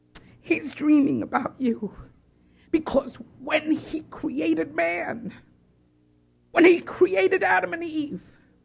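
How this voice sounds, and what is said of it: Choked-up, emotional voice. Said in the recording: “I'm going to get a little choked up”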